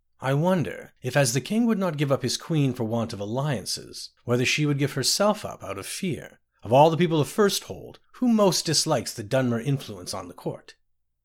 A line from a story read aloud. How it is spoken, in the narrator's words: said calmly